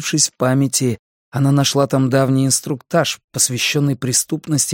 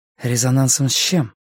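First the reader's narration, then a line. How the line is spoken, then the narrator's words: Sighing. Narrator (Russian): Он вздохнул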